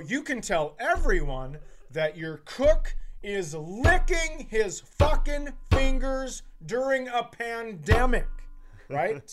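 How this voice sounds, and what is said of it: Raised, louder voice. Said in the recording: “now I raise my voice, of course”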